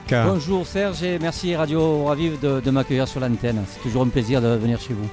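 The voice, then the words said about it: Sunny, holiday-sounding regional French accent. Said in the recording (French): “avec ton accent, je crois qu'on va partir et on va rester en vacances”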